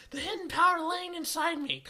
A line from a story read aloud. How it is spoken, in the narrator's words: Cosmo shouts